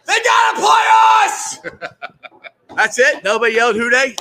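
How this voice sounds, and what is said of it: Loud shouted imitation of another person. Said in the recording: “my Greg impersonation... I scared the entire bar”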